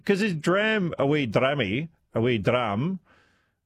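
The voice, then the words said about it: Weak put-on Scottish accent. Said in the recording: “that's my vague attempt of doing a Scottish accent.”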